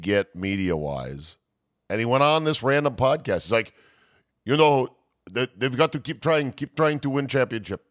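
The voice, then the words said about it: Bad accent like Captain Phillips character. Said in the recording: “sound like the guy from Captain Phillips. ... It's a shit it's a shit accent.”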